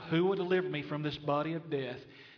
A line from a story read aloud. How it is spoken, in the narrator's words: cries out